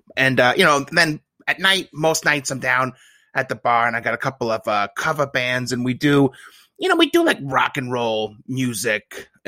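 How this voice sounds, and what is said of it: Thick Buffalo accent. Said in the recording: “This guy has a thick Buffalo accent. ... it's just very thick.”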